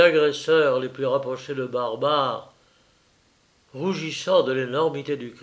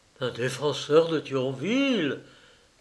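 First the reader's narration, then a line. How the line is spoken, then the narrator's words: Crowd murmuring, amazed admiration. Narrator (French): murmura la foule avec un étonnement mêlé d'admiration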